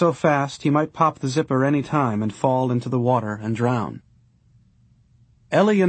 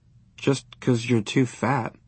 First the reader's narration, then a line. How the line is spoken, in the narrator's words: Maybelle muttered